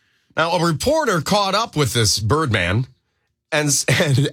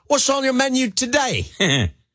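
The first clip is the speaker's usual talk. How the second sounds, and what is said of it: Put-on Australian accent. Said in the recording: “Can I do this in an Australian accent?”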